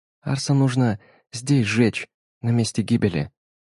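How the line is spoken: Quiet. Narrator (Russian): тихо сказала

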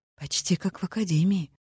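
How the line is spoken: Quiet remark. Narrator (Russian): заметила Грей тихо

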